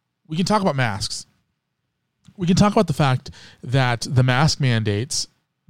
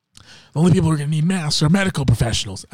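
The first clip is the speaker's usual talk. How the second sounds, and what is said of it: Imitates another person's voice. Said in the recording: “That's a terrible Anthony Fauci impersonation”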